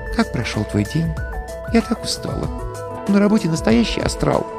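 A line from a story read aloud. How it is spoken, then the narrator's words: Whispered. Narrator (Russian): Прошептала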